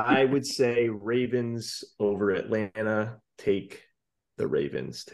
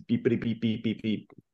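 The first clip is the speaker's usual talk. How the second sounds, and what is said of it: Imitates Doppler radar beeping. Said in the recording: “great Doppler impression... You sounded just like it.”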